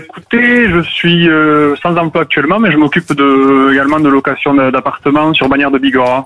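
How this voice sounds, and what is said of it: Slight Pyrenees regional French accent. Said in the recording (French): “petit accent des Pyrénées que j'entends”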